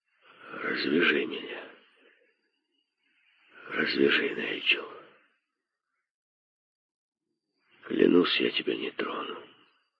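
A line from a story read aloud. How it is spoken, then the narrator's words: Barely audible. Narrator (Russian): еле слышно произнес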